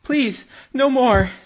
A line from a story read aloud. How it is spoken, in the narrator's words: cries